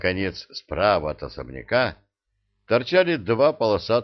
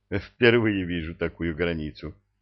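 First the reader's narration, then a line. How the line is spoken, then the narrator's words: Laughing. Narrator (Russian): засмеялся он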